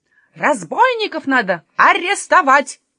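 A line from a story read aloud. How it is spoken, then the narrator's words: Shout. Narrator (Russian): закричал мясник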